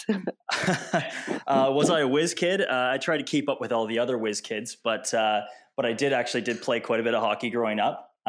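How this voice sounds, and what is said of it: Slight Canadian accent. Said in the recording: “a bit of a Canadian accent”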